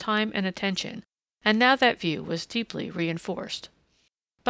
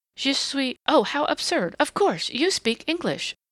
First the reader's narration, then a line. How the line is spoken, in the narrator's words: she exclaimed